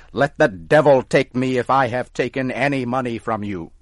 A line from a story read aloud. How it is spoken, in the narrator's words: Tom got angry and started to shout